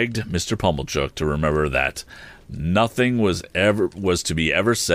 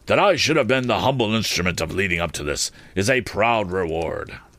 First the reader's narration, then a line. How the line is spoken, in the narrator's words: Pumblechook, after snorting admiration at me for some moments